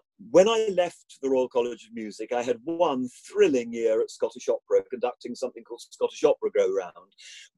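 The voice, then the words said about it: Posh upper-class English accent. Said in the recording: “you can tell from my ridiculous accent, that as a sort of public school and Cambridge educated person”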